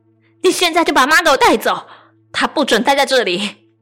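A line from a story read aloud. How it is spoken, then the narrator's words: Furious shouting over phone. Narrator (Chinese): 大姐在电话那头暴怒大吼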